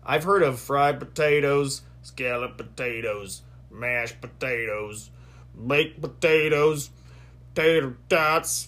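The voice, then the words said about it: Forrest Gump impression. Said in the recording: “my best Forrest Gump impression.”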